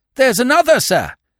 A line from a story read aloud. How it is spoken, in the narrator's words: cried Kennedy